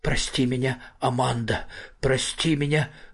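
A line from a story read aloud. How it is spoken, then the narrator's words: Forced, strained words. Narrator (Russian): выдавил он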